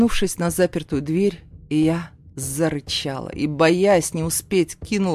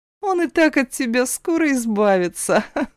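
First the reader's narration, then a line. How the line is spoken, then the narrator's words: Laughing, yelling loudly. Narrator (Russian): Рассмеялась сестра и, игнорируя плач сына, заорала на весь дом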